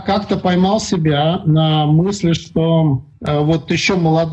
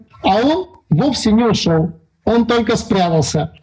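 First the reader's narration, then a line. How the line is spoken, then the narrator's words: Squeaky. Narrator (Russian): пропищал Карлсон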